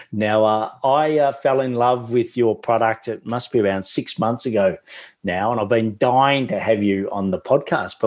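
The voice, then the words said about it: Australian accent. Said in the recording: “because of my Australian accent”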